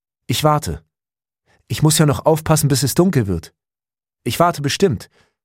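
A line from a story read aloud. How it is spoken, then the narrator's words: Calling out. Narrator (German): rief Jürgen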